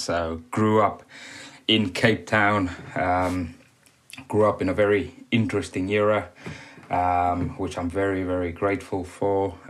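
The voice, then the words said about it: South African accent. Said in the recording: “obviously from South Africa, as you can probably tell by the accent”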